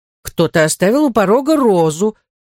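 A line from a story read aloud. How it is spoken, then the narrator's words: Exclaiming nanny. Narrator (Russian): воскликнула русская няня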